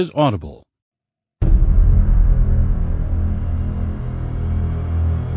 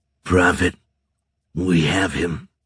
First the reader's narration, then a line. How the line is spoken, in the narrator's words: he growled, his voice scraping up from his gullet